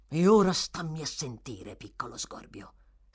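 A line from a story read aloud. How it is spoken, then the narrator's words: Hissed. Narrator (Italian): sibilò Sykes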